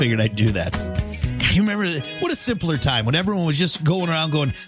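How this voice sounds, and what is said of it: Usual voice. Nothing is said of it.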